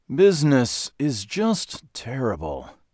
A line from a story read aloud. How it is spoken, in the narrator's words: moaned